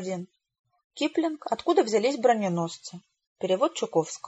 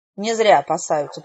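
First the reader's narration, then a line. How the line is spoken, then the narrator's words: Grumbling. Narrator (Russian): проворчала моя наставница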